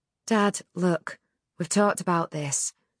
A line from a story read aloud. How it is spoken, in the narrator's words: said gently